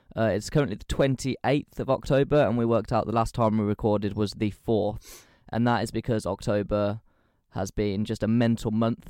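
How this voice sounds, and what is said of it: Croaky, husky voice. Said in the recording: “tell by my voice, it's a little bit sexy today. Been using my voice a lot, so enjoy those tones ... I did notice your voice is a little croakier.”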